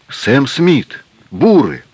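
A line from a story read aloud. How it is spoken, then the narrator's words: Two voices exclaiming together. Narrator (Russian): Александр и Альбер оба одновременно воскликнули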